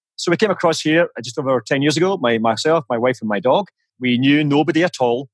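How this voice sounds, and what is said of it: Scottish accent. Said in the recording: “as you can probably tell from my charming accent, I am Scottish”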